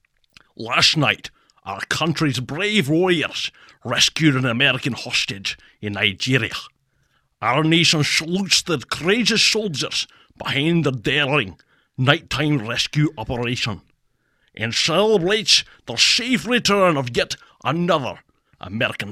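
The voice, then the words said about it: Impression of a James Bond actor. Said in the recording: “Sean Connery reads Trump tweets ... picture that I'm listening to James Bond ... my own impersonation”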